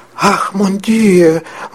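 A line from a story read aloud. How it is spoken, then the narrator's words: Weakening exclamation. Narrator (Russian): воскликнула мгновенно ослабевая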